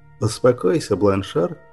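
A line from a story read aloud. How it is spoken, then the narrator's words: Gentle, kind. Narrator (Russian): ласково проговорил рыцарь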